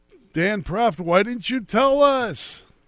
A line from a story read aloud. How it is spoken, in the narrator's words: scream